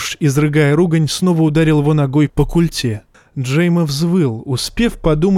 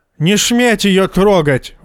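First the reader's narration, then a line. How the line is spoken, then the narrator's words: Screaming, spluttering. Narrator (Russian): вопил козел, брызгая слюной на Золла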